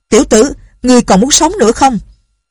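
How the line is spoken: Low, close shout. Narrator (Vietnamese): tiếng quát không lớn nhưng cự ly rất gần

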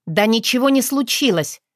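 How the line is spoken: Angry, curt. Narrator (Russian): зло отрезала Вероника

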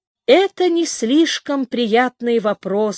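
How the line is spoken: Plain. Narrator (Russian): сказал Даниэль Лорансон

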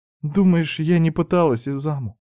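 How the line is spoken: Heavy sigh, near tears. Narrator (Russian): тяжело вздохнула, будто старалась унять вновь подступившие слезы

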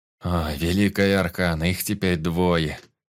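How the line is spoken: Groan. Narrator (Russian): застонал Зак

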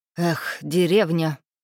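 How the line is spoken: Snort. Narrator (Russian): фыркнул он

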